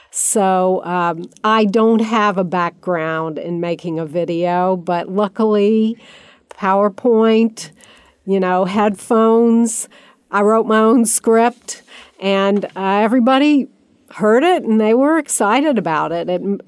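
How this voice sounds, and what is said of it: Southern American accent, slow speech. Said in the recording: “somebody who talks faster and without a Southern accent”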